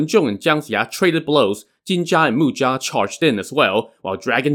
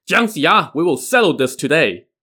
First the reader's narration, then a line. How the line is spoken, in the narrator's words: shouting